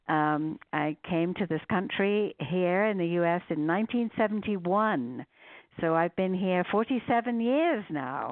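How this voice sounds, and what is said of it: English accent. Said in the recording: “you can maybe hear, or your listeners can also hear from my accent, that maybe born somewhere else ... born in a place called Guildford, which is about 30 miles southwest of London in England”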